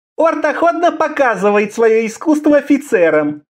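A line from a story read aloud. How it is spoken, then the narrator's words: Giggling. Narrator (Russian): Хихикая, он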